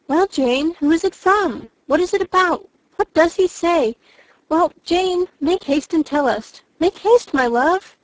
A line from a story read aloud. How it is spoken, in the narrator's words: Bennet's eyes sparkled with pleasure, and she was eagerly calling out